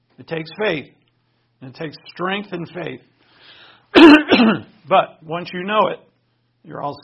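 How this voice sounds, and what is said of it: Strained, hoarse voice. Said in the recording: “As I lose my voice.”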